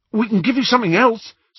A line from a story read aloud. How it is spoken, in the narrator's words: said Ron eagerly